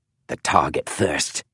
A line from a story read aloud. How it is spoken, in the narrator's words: muttered Lucan